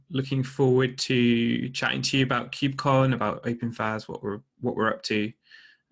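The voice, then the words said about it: British English accent. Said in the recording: “your accent. People might have thought it was from Texas, but it's not. It's you're over in the U.K.”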